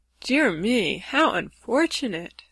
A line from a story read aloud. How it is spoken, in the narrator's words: sighed the lovely Rainbow's daughter